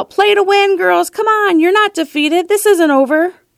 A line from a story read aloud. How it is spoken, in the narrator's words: would yell out